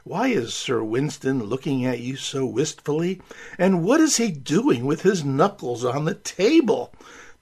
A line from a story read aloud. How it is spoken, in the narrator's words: one of their dinner guests quietly asked Lady Churchill